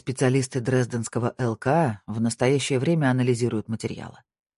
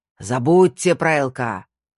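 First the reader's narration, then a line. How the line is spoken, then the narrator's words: Growled. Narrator (Russian): прорычал Снейдер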